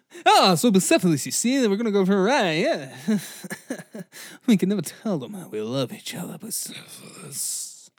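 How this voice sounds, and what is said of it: Crazy horseman character voice. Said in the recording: “that was my impression of a crazy horseman”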